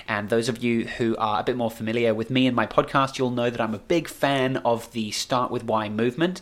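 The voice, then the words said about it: Excited, energetic voice. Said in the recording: “Hopefully you can tell in my voice ... I'm really geared up and excited”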